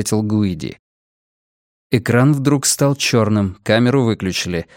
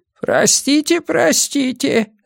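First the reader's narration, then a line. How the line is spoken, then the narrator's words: Squeaking. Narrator (Russian): запищал Рафаэль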